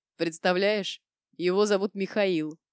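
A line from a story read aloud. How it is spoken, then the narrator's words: Breathless through laughter. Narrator (Russian): смог выдохнуть Слава и снова залился хохотом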